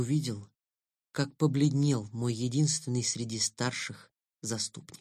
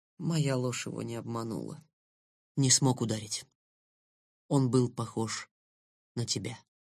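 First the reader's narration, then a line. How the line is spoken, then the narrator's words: Whispered confession. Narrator (Russian): так же шепотом признался я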